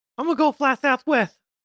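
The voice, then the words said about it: Mike Tyson voice impression. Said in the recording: “I can't do a Mike Tyson accent, but I wish I could ... That wasn't bad.”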